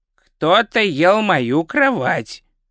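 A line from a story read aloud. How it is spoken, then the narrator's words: Plain. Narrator (Russian): сказал он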